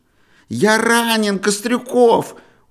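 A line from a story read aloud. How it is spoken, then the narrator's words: Loud impatient shout. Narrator (Russian): Уже во весь голос нетерпеливо закричал снова Юрочка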